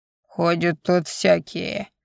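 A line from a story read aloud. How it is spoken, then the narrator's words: Grumbled displeased, beggar woman. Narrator (Russian): недовольно буркнула нищенка с бульвара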